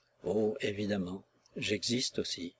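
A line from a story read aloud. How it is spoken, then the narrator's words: Murmur. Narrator (French): murmura-t-il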